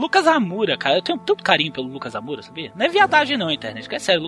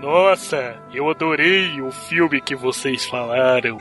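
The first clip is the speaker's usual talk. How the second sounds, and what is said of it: Imitates another person's voice, second-rate. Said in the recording (Portuguese): “é o mais próximo que eu consigo fazer da voz do Lucas ... Essa sua imitação de Lucas tá bem segunda classe ... eu botei o queixo no plexo superior aqui no abdômen pra conseguir fazer isso aqui”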